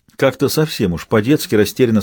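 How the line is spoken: Plain. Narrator (Russian): спросил он

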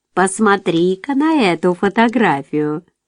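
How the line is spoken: Cheerful exclamation. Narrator (Russian): весело воскликнула кухарка

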